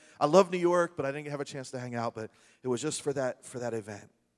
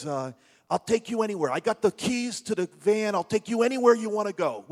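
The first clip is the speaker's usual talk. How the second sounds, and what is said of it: Imitated thick Brooklyn accent. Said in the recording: “this really thick Brooklyn accent”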